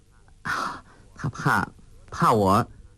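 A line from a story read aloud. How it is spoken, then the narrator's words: Laughing. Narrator (Chinese): 穆念慈笑道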